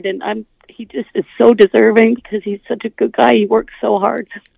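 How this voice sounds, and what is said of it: Emotional voice, cracking. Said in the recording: “I can hear your voice cracking up now”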